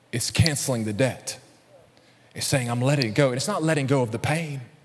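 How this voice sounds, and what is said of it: Alabama Southern US accent. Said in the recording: “my Alabama accent”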